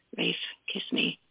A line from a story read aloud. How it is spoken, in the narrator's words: she whispered raggedly